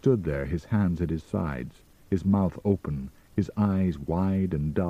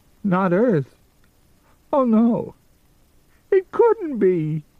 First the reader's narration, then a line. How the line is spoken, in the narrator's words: he wailed